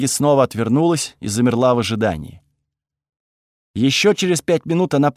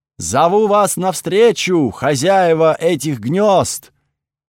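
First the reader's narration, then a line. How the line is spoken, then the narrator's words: Shout skyward. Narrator (Russian): крикнула она в чернеющее небо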